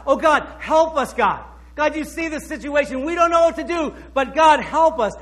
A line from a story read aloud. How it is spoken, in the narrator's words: he cried out to God